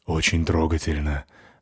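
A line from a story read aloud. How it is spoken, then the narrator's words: Gloomy dwarf voice. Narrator (Russian): мрачно сказал карлик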